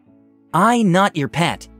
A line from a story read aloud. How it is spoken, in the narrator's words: it stated very firmly